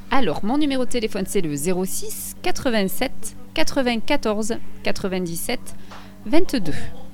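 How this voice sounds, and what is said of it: Southern French accent. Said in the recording (French): “avec un joli accent du Sud.”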